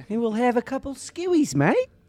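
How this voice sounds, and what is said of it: Pretty good put-on Australian accent. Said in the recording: “That was a pretty good Australian accent, brother.”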